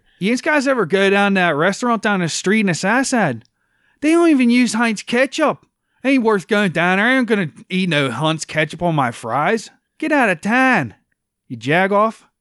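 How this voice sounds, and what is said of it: Pittsburgh Yinzer accent. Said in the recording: “the accent's more like. ... Do your Yinzer.”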